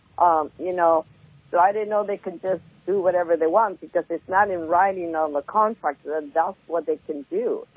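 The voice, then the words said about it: Voice with a slight cold. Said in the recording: “I have a little cold”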